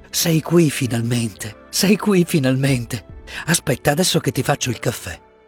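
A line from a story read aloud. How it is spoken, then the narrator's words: Murmuring, overcome with emotion. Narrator (Italian): mormorò lei non trattenendosi più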